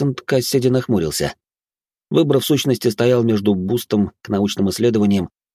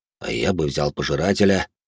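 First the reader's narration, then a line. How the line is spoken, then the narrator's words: Deep bass voice. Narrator (Russian): пробасил Эрик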